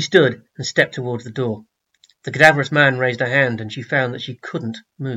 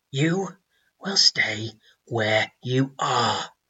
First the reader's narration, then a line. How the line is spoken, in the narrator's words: he rasped